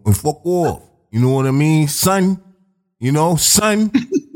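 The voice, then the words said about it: Put-on New York accent. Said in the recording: “if you had a New York accent ... That sounded like the New York accent.”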